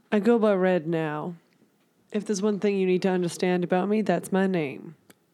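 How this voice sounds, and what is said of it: Speaks with a put-on accent. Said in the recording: “What's with your accent?”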